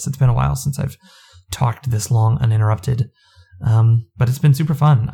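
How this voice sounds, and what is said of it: Strained, fading voice. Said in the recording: “You can hear I'm kind of losing my voice after all this.”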